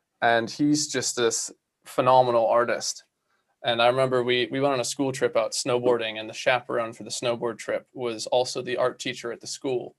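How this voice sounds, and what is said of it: American accent. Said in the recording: “you guys could probably tell from my accent that I'm not originally from these parts. So I grew up in the US”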